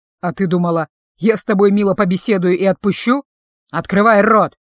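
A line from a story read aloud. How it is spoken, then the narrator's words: Commanding order. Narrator (Russian): повелительным тоном приказал он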